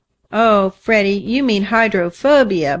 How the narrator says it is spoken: burst out Nan with a laugh

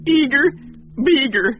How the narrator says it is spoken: Bill sobbed

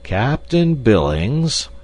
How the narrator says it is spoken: he drawled finally

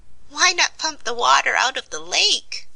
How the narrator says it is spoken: suggested the Patchwork Girl with a laugh

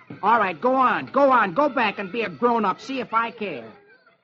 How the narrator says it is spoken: Peter snaps

